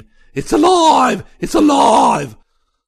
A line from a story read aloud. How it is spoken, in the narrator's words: He went on to scream